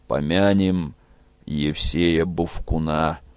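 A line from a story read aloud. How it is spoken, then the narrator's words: Gloomy. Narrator (Russian): мрачно сказал Петро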